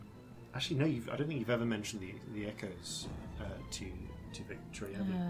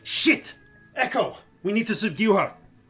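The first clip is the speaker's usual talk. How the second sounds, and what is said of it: Character voice with an accent. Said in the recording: “Why does Victory suddenly have an accent? ... Victory only has an accent in when speaking.”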